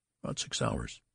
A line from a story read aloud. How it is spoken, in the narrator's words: answered Mr